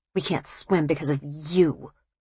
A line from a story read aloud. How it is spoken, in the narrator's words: he hissed